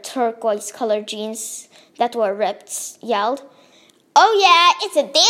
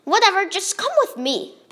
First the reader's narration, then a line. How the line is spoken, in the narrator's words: Bob yelled